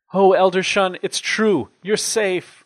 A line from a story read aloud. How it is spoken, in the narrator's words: cried Sister Steed